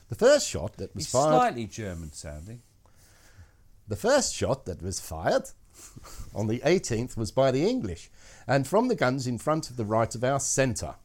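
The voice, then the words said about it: Posh English accent. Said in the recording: “your lovely posh accent”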